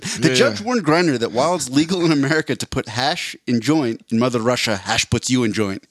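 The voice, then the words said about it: Put-on Russian accent. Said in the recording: “let me say that once more without the Russian accent.”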